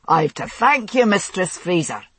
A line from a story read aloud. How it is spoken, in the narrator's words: he shouted through the snow